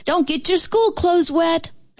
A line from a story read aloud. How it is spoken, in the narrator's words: our mamas hollered